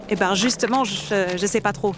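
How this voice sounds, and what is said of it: Slight put-on accent. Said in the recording (French): “vous avez un petit accent ... Si, si, vous avez un accent.”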